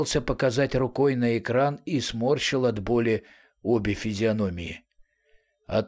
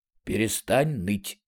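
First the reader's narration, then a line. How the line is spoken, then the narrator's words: Quiet, usual voice. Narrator (Russian): сказал Арамис уже обычным своим тихим голосом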